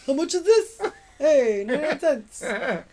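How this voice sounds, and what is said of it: Put-on East Coast Brooklyn accent. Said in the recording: “I just gave him, like, an East Coast accent, which he doesn't have, kind of ... Oh, Brooklyn.”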